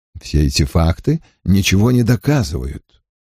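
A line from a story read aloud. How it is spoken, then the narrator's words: Less calm objection. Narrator (Russian): уже не так спокойно возразил Ллойд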